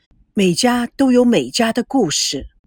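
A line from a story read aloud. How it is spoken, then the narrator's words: Sighing with feeling. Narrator (Chinese): 赵维康看着他们，感叹地说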